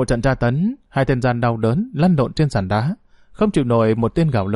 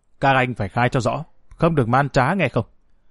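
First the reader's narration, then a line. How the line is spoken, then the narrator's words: Cold command. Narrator (Vietnamese): Bảo Trung hạ lệnh lạnh lùng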